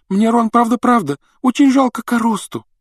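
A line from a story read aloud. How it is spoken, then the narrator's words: Sobbing. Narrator (Russian): рыдала она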